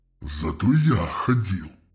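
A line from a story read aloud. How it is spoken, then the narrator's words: Hiss. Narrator (Russian): прошипел Завет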